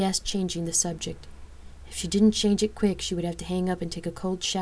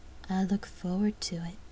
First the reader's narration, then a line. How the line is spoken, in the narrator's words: Lark purred into the receiver